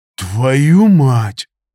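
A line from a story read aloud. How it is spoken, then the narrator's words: Exhaled in unison. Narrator (Russian): выдохнули мы в один голос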